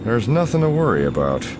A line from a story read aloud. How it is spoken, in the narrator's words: Han assures her through gritted teeth